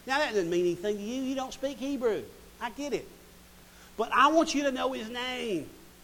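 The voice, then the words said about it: Southern American accent. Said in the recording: “I'm speaking it to you in the southern dialect”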